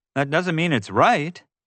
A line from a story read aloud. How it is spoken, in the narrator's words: yelled